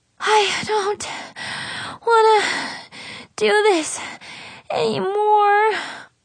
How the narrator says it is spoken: Brianna panted

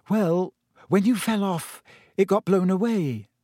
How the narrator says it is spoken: said Hermione hesitantly

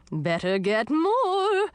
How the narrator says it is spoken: she said in a cheery voice

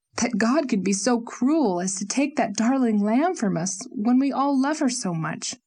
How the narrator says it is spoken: said fiercely, answering the anguish

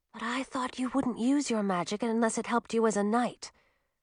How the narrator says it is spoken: Millie turned her head to whisper back

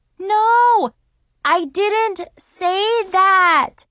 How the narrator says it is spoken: I shouted

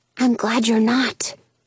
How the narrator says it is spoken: I whisper back

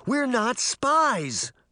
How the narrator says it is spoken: Sabrina exclaimed

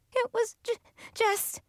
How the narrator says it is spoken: she sobbed

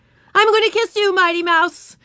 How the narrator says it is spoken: shrieked Ramona

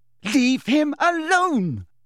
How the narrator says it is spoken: Lily shouted

